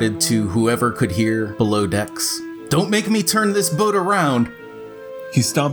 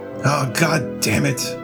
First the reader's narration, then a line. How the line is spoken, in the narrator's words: he grumbled to himself